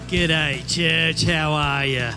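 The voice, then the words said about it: Put-on Australian-style accent. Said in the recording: “I wish I had an accent ... I guess Brian Houston, anybody Brian Houston, Hillsong Church?”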